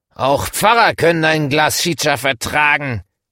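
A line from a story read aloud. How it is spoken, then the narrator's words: Man shouting. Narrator (German): schreit der Mann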